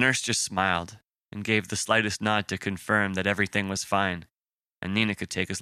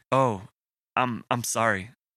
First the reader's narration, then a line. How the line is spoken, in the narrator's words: Nina said, stuttering the words